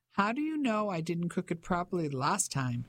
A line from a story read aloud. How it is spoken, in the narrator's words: She asked, laughing